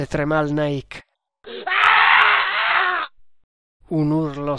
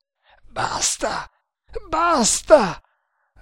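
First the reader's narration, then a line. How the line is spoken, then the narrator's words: Choked repeating voice. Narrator (Italian): ripeté lui con voce strozzata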